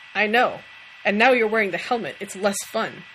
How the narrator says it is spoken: Dean snorted

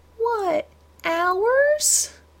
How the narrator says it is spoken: Madison whined, in an impressive impersonation of her uncle denied a snack

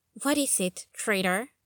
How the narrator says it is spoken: Jessica muttered

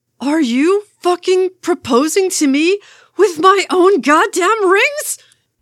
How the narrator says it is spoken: He shrieked, a full octave above normal

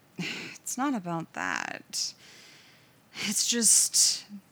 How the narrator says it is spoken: he sighed

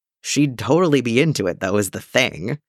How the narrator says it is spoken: Jason said, once he'd stopped cackling

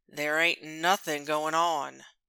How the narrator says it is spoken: Judd drawls

